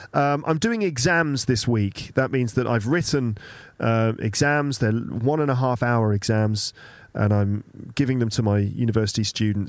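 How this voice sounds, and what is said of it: Slightly sick, under-the-weather voice. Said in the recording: “I'm still getting over the flu, but I'm basically feeling okay. You can probably hear it in my voice a little bit.”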